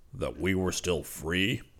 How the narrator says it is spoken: Zircon smiled grimly

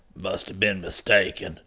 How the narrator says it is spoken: he muttered

